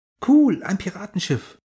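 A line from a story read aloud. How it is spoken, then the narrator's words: Called out. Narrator (German): rief Lisa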